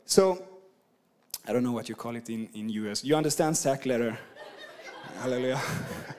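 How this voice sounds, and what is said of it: Swedish-accented English. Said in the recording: “I'm from Sweden and I've been across the world. My accent is just messed up. So I hope you can understand me”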